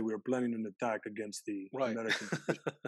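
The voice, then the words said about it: Put-on Russian accent. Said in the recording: “That was a Russian accent”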